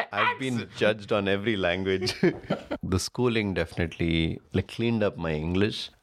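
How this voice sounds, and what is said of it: Indian accent. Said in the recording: “the accent is Indian”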